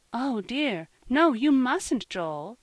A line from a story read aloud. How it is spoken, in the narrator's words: cried Mrs